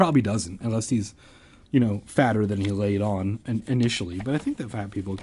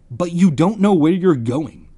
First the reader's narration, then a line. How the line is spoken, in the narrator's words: he said angrily